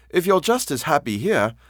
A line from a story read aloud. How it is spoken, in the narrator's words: I quavered